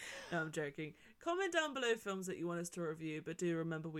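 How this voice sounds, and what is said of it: Usual voice. Nothing is said of it.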